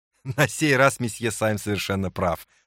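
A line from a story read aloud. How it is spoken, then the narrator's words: Laughing reply. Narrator (Russian): смеясь ответил полковник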